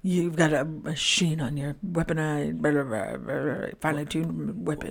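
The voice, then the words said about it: Impression of a movie character. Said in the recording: “Colonel Troutman impression”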